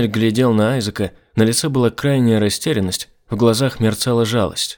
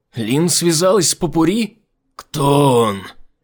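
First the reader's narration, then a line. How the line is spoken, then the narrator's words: Shouted out. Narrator (Russian): выкрикнул Айзек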